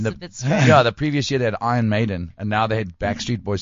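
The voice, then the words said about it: Raspy voice. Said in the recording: “raspy, sexy voice ... the raspy, sexy voice that you have. That is just so characteristic.”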